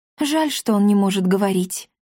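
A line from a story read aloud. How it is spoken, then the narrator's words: Sad sigh. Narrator (Russian): грустно вздохнула Дарина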